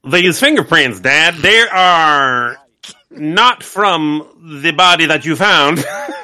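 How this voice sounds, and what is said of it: Imitates another person's voice. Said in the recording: “I do an amazing Alfonso Freeman impersonation.”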